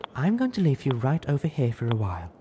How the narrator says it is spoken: Velvet cooed softly

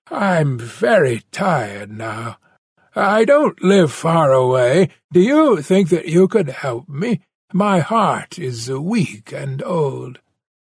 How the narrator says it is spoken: He groaned

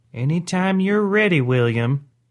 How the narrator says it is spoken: Grandma whispered

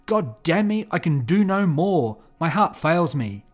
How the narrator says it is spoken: The executioner exclaimed

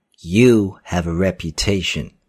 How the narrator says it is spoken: said

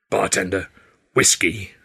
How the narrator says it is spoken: growled

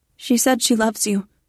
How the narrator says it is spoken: I blurt out

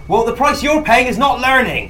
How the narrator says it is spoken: shout out

